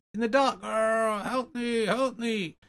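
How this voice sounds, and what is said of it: Voiced little seal creature. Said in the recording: “it's a seal. Or a little Morlock or something... it was you doing the voice... That was me doing the voice”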